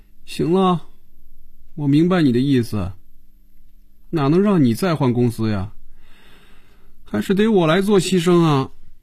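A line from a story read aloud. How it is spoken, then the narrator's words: Dejected, subdued. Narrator (Chinese): 菲比的眼神暗淡下来，脸上也没了笑容，垂着眼皮说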